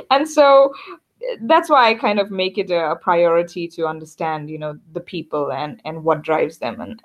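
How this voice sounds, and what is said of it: Hard-to-place accent. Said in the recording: “Where's your accent from? It's unidentifiable. ... why I look the way I do, but sound very different.”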